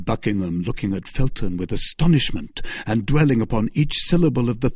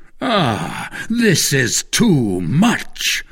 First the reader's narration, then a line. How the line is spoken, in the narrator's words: cried Buckingham